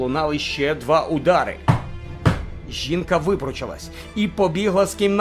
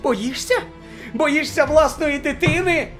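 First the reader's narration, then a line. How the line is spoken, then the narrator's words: Woman shouting. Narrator (Ukrainian): закричала жінка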